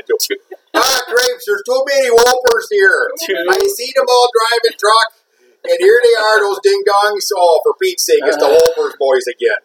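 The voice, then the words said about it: Put-on Minnesota accent. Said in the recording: “That's not a good thing to say with the Minnesota accent.”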